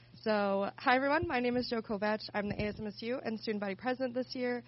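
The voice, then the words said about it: Slightly stuffy, congested voice. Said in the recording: “I have a little bit of a cold.”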